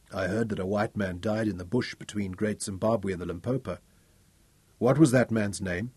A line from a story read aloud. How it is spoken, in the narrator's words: Ralph asked him quietly